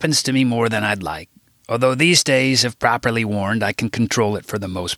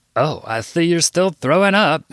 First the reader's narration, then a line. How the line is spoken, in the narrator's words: he laughed